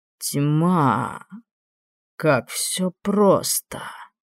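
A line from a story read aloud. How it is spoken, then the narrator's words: Muttered. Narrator (Russian): пробормотал тот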